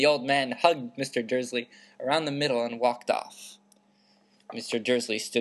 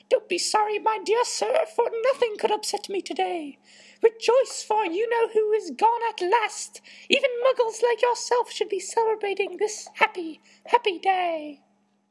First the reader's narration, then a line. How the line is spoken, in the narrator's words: his face split into a wide smile, and he said in a squeaky voice that made passerby stare